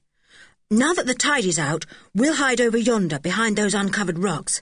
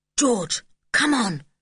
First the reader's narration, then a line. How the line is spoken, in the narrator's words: called Julian in a low tone